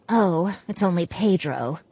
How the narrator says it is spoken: she mumbled

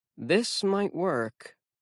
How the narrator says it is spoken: Alex muttered

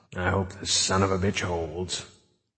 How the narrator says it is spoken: he muttered

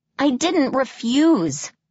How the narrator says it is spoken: I exclaimed

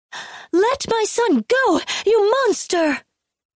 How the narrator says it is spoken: Hwazo shrieked

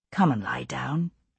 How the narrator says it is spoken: I said softly to Jamie

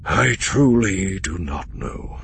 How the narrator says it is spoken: Pelion said with a sigh

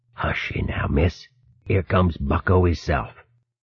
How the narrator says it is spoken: Ruff whispered

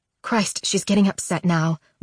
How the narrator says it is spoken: Mom mutters

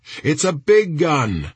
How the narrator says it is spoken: Nelson shouted back

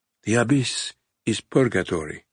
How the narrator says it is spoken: a nun whispered beside him

